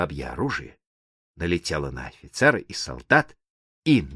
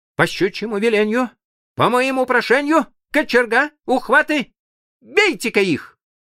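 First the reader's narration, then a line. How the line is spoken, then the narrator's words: Shouted while being beaten. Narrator (Russian): Дурак видит, что его бьют, и крикнул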